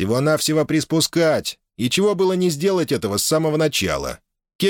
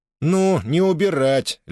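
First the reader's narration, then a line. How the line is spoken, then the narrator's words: Lazy correction. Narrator (Russian): лениво поправил брата Натан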